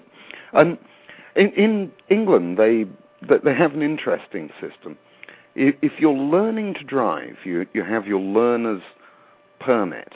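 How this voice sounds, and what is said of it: English accent. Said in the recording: “I grew up in England. You might have figured that out from my accent. ... It's not really much of a Mississippian accent.”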